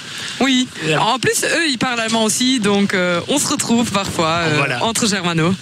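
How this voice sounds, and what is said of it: German-accented French. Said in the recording (French): “j'adore votre accent ... C'est encore meilleur avec l'accent ... très originale avec cet accent ... il n'y a pas énormément de germanophones”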